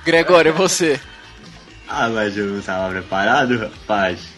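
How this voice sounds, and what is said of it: Imitates another person's voice. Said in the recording (Portuguese): “Isso é uma imitação de Silvio Santos ... Aí a voz ficou ruim.”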